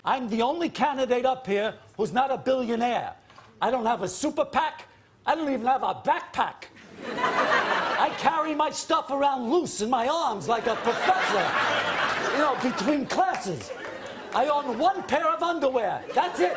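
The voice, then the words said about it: Larry David imitating Bernie Sanders. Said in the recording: “Larry David did his Bernie impression.”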